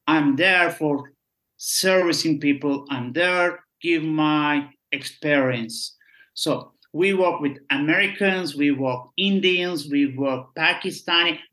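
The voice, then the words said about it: Turkish-accented English. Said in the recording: “my accent is not good, but I'm a Turkish”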